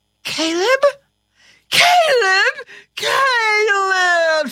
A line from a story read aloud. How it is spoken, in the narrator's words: she shrieked